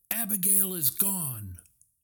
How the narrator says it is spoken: Callahan shouted, his voice full of anguish

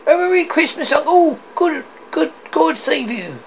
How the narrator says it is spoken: cried a cheerful voice

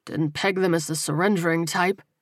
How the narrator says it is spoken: Terrell muttered

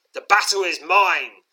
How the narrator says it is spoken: snarls

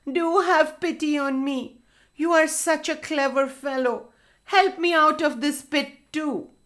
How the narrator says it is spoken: said the fox, whining

